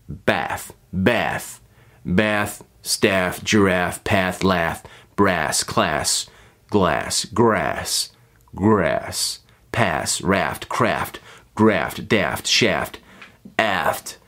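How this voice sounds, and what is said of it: American accent. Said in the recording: “in America, the R sound is like, ah, ah. But at least in the accent I'm doing”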